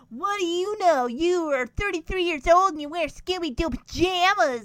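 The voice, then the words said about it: Poor Joe Pesci Jersey accent impression. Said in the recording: “he's got a Joe Pesci accent. Like a Jersey accent. And my impression was really crappy. I'm sorry, but I can't do Joe Pesci.”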